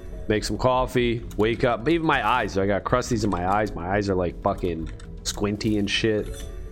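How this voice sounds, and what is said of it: Groggy just-woke-up voice. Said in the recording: “My voice is groggy.”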